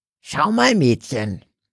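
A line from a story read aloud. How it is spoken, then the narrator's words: Old woman's sudden croak. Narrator (German): krächzte die Alte, unvermutet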